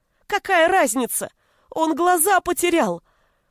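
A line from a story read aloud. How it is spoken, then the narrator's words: Shouted. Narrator (Russian): закричал Гришка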